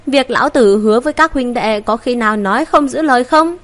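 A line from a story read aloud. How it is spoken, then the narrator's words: Loud bellow. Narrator (Vietnamese): Ngô Công Lĩnh lớn tiếng gào nói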